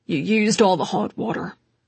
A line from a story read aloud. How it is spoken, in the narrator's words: Constantin grumbled absently